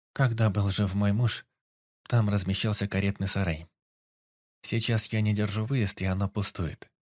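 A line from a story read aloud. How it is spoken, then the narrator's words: Even, dry voice. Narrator (Russian): ровным сухим голосом ответила она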